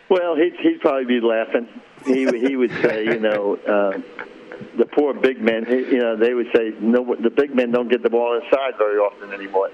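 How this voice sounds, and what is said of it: New York Bronx accent. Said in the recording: “you haven't lost your Bronx accent.”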